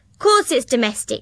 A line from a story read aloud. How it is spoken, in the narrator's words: snapped Gran